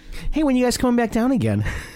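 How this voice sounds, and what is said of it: Bad put-on Minnesota accent. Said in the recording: “a really bad Minnesota accent”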